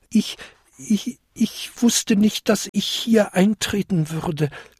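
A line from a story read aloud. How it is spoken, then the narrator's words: Small creature stammering. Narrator (German): stammelte der kleinste Winterkobold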